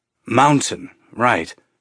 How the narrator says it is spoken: Holden said

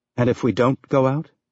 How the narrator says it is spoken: Fred asked

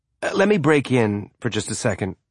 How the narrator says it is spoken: Holden said

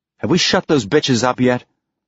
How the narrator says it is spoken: Ashford snapped

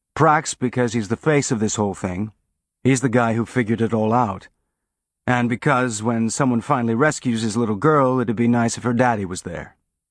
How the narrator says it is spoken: Holden said

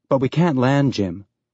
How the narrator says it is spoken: Naomi said

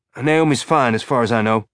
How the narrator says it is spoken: Alex replied

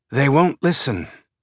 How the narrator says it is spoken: Baja sighed

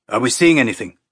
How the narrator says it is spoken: Sagala asked, his voice tight and tense

